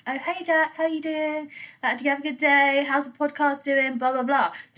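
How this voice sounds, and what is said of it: British English accent. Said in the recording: “With him, I speak like this. ... I speak English accent English ... British”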